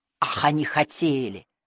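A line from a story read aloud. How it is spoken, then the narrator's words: Low through teeth. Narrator (Russian): вновь процедил он ей в ухо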